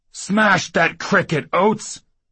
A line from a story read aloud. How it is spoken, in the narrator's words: Hobnail yelled